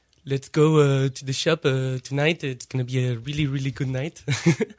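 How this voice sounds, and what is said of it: English with a French accent. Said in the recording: “Like in English with a French accent? ... That wasn't bad.”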